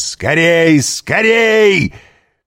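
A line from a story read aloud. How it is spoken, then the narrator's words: Startling shout. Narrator (Russian): крикнул он таким голосом, что кучер привскочил на козлах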